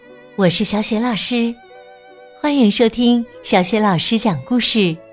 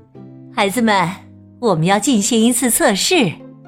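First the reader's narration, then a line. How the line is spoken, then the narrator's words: Smiling. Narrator (Chinese): 她微笑着说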